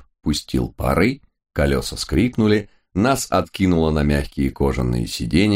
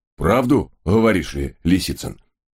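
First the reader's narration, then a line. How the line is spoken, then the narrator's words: Loud chuckle. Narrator (Russian): В голос хохотнул рыжий кэбмен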